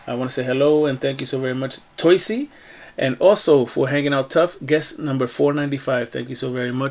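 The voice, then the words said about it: Tired, weary voice. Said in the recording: “You can hear it in my voice. I need a bed.”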